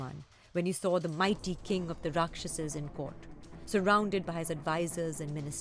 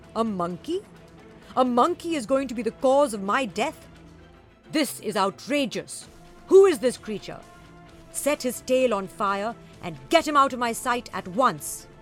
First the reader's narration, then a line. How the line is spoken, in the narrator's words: he shouted